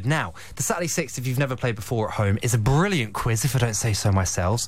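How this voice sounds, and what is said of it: Slightly out of breath. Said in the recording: “I'm a bit out of breath”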